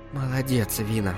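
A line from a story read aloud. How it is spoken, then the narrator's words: Weak whisper. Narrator (Russian): прошептала Ржебета, чувствуя, что силы опять покидают ее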